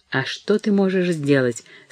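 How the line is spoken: Tearful. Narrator (Russian): сказала Несси сквозь слезы

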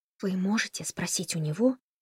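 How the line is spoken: Whisper in ear. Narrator (Russian): прошептала Тесса Ричарду на ухо

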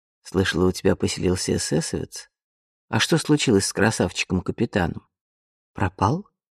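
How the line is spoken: Calm reply. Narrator (Russian): спокойно ответила Вианна

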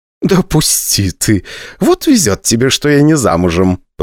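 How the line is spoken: Laughing. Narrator (Russian): посмеялась Валентина Николаевна

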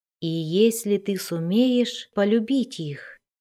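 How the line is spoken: Quiet. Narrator (Russian): тихо добавила Кейти Бри

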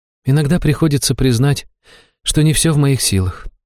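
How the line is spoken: Priestess sighing. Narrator (Russian): жрица вздохнула

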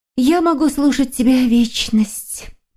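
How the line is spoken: Whispered by a girl. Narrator (Russian): прошептала девушка

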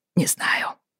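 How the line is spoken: Mumbled. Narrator (Russian): бормотал

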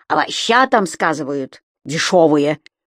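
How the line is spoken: Grumbled. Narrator (Russian): проворчал Пчхов

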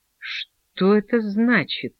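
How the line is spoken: Quiet. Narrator (Russian): повторила тихо Таня

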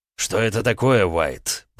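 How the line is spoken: Growled by the mayor. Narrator (Russian): прорычал мэр

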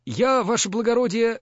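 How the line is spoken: Timid babbling. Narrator (Russian): залепетал писарь, потупя взор

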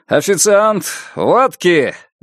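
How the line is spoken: Loud shout. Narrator (Russian): громко крикнул он

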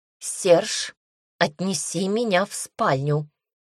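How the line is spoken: Cold clipped words. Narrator (Russian): холодно отчеканила девушка

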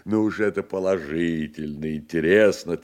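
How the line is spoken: Shaking with laughter. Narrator (Russian): Трясясь от хохота, проговорил профессор

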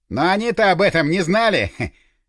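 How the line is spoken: Chuckled. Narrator (Russian): хохотнул Горюнов

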